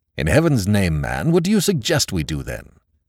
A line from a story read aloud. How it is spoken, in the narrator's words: The presidential assistant said irritably